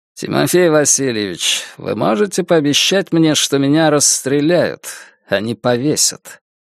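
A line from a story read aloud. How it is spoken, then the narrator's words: Calm statement. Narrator (Russian): спокойно произнес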